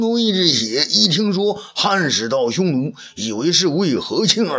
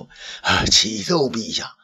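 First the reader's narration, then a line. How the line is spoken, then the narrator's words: Hoarse voice. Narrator (Chinese): 这任场啊，沙哑着嗓子说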